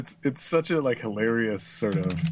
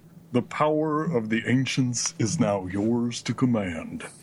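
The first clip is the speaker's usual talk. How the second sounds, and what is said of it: Imitates a dramatic game narrator. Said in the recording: “my impersonation of the ending movie”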